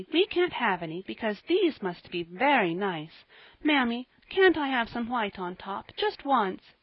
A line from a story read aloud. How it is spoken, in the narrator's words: pleaded